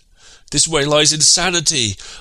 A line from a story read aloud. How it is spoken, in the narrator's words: I cried in my piping voice